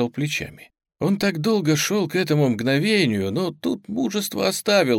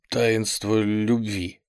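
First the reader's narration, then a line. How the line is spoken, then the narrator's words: Forced out, strained. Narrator (Russian): выдавил он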